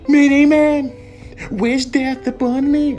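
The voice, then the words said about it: Overdone, exaggerated singing. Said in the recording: “I'm not overdoing like,”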